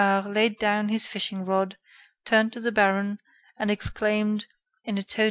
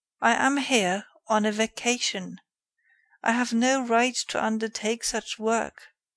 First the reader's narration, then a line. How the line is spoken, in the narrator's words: This offer disconcerted Ganimard, who replied calmly